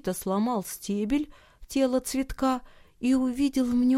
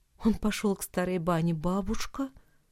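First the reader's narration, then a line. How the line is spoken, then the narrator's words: Quiet. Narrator (Russian): тихо сказал ей Никита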